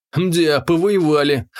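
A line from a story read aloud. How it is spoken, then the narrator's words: Snort. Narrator (Russian): хмыкнул я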